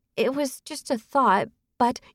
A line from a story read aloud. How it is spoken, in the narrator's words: Apologetically, Jax began to mumble